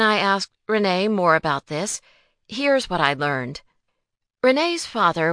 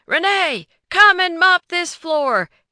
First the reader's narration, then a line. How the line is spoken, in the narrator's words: he would yell